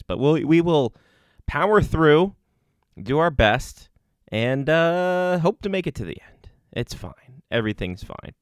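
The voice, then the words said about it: Sick-sounding voice. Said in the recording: “I'm coming down with something apparently, as you can tell in my voice”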